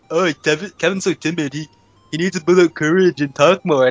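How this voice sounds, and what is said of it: Imitates other people's voices. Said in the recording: “that impression of us”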